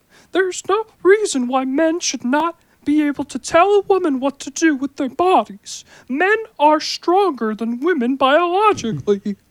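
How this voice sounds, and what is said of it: Imitates another person's voice. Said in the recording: “my Jordan Peterson impression”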